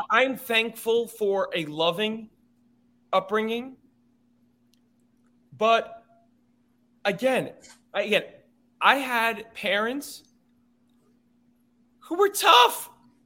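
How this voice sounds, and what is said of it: Loud, near-yelling speech. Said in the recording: “I'm sorry if I'm yelling”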